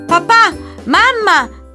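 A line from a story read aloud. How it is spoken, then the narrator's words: Shouting. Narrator (Italian): gridò Filippo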